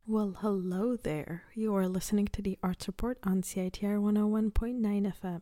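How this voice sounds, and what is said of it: Speaking lower and quieter than usual. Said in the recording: “the reason that my voice is a little lower than usual is because I am recording this from my home ... my mom's asleep right now, so I don't want to wake her up”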